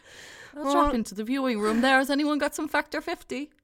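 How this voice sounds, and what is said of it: Exaggerated hammed-up Irish accent. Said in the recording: “Why are we faking accents?... I have a quite neutral Irish accent... So we just have to ham it up a bit”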